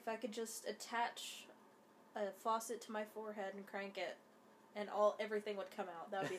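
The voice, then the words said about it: Congested, stuffy-nosed voice. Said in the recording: “If I sound sick, that's because I am ... my nose is draining at an alarming rate”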